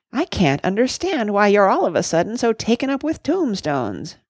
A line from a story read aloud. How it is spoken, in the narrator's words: grumbled Cuffy